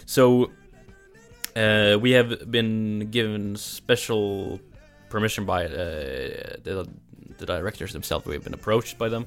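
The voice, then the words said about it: Norwegian accent. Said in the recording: “my pronunciation of it, of my accent, where I'm from Norway”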